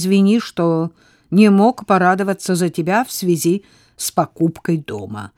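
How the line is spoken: Gloomy. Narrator (Russian): мрачно сказал он

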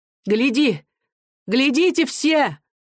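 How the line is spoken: Shouting. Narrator (Russian): кричала она

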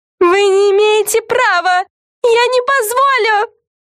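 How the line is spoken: Shrill shriek. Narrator (Russian): Завизжала главная Карен

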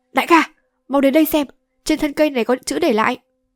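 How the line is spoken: Loud. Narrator (Vietnamese): Nhị Hồ lớn tiếng nói

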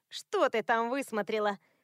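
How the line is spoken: Snorting. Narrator (Russian): фыркнула Стелла

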